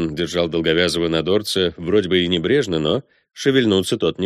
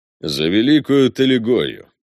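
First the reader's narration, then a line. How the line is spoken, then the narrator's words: Gloomy command. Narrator (Russian): велел мрачным тоном Балме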